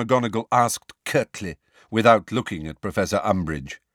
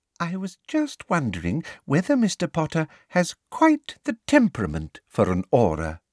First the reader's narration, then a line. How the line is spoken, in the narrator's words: said Professor Umbridge sweetly